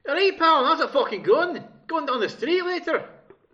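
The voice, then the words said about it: Attempted Scottish accent. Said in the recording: “That doesn't sound Scottish to me. ... That was fucking bang on Scottish.”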